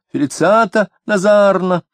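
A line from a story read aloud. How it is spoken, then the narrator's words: Shrill scream. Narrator (Russian): визгливо закричала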